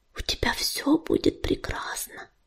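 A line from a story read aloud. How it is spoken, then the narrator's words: Whispered. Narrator (Russian): шепнула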